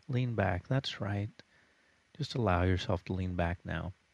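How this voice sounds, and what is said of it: Calm monotone hypnosis voice. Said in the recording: “in my hypnosis voice... Everything is monotone. Nothing is jumpy or lively. Everything is relaxed.”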